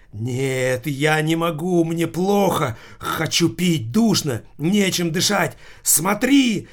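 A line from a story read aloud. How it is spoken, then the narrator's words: Sudden shout. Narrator (Russian): вдруг закричал водила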